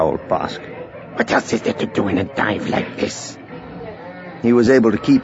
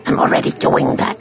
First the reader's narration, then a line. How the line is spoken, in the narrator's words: snarled Bosk